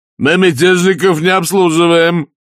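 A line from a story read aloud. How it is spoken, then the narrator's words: Loud. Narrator (Russian): громко сказал трактирщик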